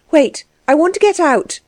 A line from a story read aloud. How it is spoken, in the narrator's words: cried Anna